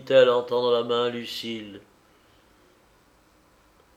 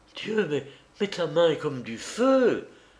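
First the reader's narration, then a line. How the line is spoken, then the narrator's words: Exclaimed. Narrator (French): s'écria Madame de Sauveloche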